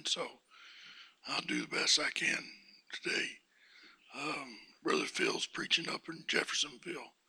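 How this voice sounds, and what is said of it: Hoarse voice, coming and going. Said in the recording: “My voice is coming and going ... It's very seldom I get a horse.”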